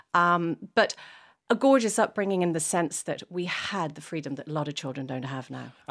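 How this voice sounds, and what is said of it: Mixed English and Irish accent. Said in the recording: “my accent is a bit funny, because I was English at home and I was Irish out and about”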